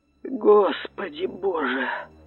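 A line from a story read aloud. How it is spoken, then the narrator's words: Whispered. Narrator (Russian): прошептал Лондон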